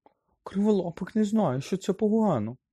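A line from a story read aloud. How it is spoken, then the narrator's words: Trembling voice. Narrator (Ukrainian): тремтячим голосом озвався Герміон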